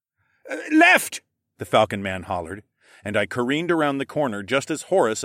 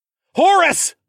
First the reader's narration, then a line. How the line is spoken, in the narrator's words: I yelled